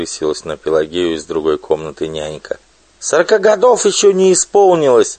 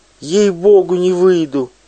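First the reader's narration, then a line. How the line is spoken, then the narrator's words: Shrill squeal. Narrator (Russian): взвизгнула Пелагея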